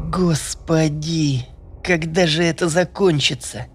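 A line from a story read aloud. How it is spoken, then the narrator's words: Strained, forced out. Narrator (Russian): выдавила Танька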